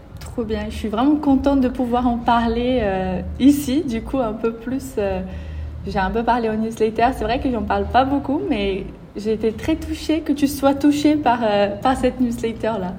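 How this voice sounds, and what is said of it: Slight foreign accent in French. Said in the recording (French): “ils se rendent compte que tu as un petit accent”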